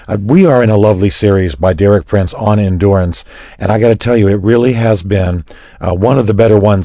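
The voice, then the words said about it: Raspy, strained voice. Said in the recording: “excuse my raspy voice. I've just had a little bit of voice strain”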